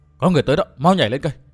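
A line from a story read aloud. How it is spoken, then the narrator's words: Soft cry. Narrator (Vietnamese): Lãnh Hồn Tiên Tử khẽ la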